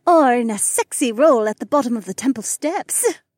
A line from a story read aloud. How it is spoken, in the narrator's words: Becca chuckled